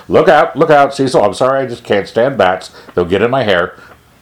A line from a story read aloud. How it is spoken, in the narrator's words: Dimble's voice cried sharply